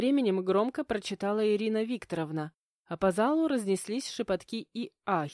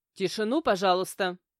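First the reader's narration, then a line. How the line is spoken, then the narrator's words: Stern request. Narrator (Russian): строго попросила Ирина Викторовна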